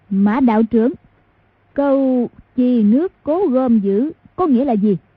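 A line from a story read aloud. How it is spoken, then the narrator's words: Loud speech. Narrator (Vietnamese): lớn tiếng nói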